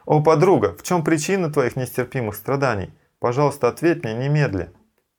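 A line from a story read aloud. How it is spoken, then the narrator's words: Exclaiming. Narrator (Russian): Шри Радхика воскликнула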